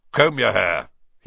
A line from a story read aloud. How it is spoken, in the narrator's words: he barked